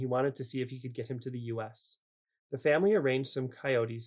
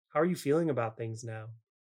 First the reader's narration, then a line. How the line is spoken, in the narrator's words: Francis sighed